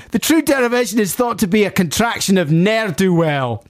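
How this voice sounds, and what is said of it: Put-on Glaswegian Scottish accent. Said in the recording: “not even Glaswegian people would say that. Sorry, I got too much in the character of, like, ... I'm going to stop doing the accent now. No, I'm not.”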